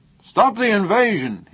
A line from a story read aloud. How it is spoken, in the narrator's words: shouted